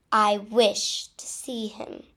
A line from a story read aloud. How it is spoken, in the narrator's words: Dumbledore interrupted sharply